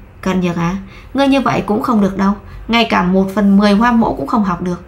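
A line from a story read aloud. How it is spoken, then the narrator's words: Sighing. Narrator (Vietnamese): thở dài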